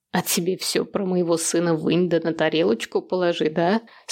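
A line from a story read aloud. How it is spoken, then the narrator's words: Old woman's creaky laugh. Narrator (Russian): Скрипуче рассмеялась старуха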